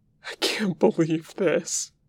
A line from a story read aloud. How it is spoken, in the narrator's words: Wei Ying wheezes